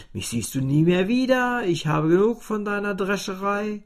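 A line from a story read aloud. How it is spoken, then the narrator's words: Calling repeatedly. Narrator (German): das Klavier rief immerzu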